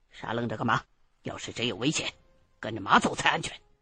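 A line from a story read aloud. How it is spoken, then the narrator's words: Cold. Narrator (Chinese): 大哥 冷冷的说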